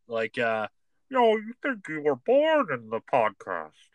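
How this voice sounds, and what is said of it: Bane impression drifting into Darth Vader. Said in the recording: “best Bane impression ... I started doing a little Darth Vader ... kind of sounded like Hans Gruber”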